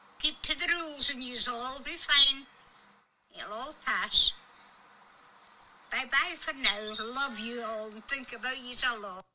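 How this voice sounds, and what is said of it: Scottish accent. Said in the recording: “Well said ... What an accent ... What a great accent”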